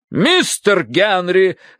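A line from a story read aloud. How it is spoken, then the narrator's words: Barked. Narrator (Russian): рявкнула миссис Меринг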